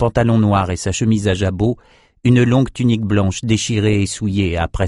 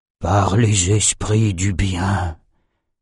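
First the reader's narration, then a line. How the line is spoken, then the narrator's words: Breathed softly. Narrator (French): souffla Nathan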